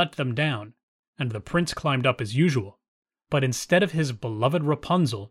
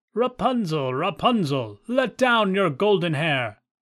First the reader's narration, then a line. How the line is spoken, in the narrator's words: And when the prince came and called out